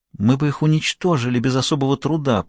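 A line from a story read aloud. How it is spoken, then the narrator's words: Muttering. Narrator (Russian): пробормотала пантера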